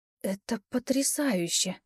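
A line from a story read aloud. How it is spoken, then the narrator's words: Awed whisper. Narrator (Russian): прошептала я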